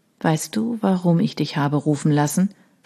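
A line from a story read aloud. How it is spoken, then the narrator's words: Quiet question. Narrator (German): fragte er leise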